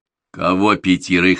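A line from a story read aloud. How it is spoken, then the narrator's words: Stern question. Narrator (Russian): строго спросил Зарубин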